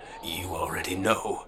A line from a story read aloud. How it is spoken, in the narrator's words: the fat man whispered